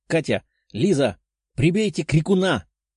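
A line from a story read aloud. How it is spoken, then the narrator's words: Shouted. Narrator (Russian): прокричала Даша, понимая, что если сейчас тот крикнет, то они попросту проиграют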